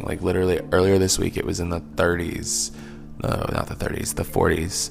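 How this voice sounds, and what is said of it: Voice sounds slightly congested. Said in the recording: “I have a little bit of a cold right now”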